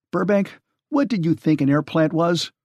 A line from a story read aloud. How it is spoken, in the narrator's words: snapped Channing